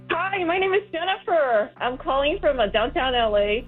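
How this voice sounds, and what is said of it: Excited, upbeat voice. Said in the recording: “you sound so excited.”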